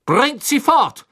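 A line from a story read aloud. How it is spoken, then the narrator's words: Thundering shout. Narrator (German): donnerte Crouch den Dementoren entgegen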